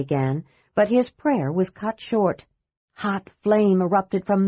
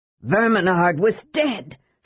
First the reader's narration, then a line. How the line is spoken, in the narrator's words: Sturm shouted hoarsely